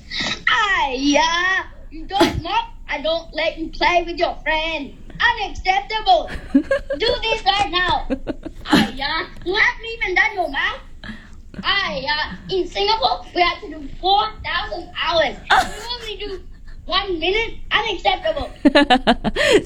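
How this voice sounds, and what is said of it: Imitated Singaporean accent over Aussie accent. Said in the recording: “does a pretty good impersonation of his mom, despite having a pretty strong Aussie accent ... his Singaporean accent needs work”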